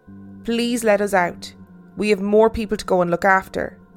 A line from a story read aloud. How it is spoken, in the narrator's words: I just said as calmly as I could